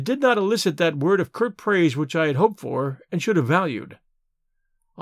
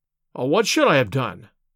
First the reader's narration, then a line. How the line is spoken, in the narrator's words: I cried, with some heat